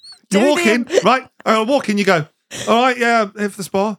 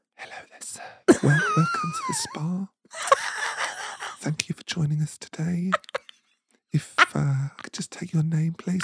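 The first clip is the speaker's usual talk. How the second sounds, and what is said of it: Quiet whispering receptionist voice. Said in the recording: “whispering? ... Can you speak up?”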